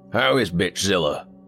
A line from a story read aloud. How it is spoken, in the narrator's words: Dale chuckled